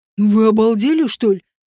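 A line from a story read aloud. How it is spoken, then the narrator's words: Barked. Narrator (Russian): рявкнул Вааш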